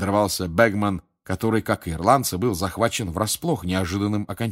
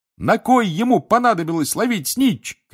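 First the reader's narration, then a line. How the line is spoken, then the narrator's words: Shouting. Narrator (Russian): кричал Рон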